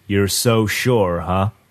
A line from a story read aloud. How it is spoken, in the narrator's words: My uncle spoke up in that slow, lazy drawl he uses when he breaks up a fight